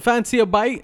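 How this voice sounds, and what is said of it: Put-on British accent. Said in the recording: “Like, I want it like a British accent.”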